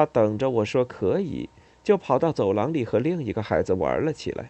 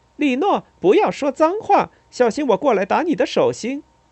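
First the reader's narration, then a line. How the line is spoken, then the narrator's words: Woman shouting in Italian. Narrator (Chinese): 那女人 从厨房里用意大利语喊道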